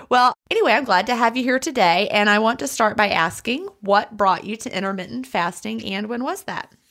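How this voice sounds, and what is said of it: American Southern accent. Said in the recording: “it's such a cute accent ... The Southern accent is definitely a different one.”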